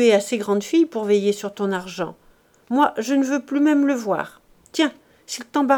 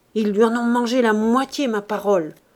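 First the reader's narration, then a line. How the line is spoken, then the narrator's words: Furious grumbling. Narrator (French): grondait-elle furieusement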